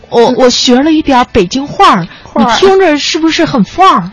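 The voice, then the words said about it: Southern Beijing accent with erhua. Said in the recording (Chinese): “这应该是偏北京有点南城的口音...就是你后面都加儿化”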